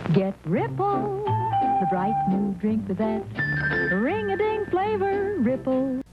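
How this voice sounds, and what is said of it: Imitates a commercial jingle. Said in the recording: “my impression of our Ripple theme song”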